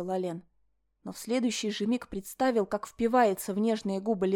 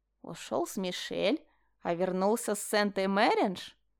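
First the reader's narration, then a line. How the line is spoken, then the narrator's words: Mocking drawl. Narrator (Russian): протянул Бертон насмешливым тоном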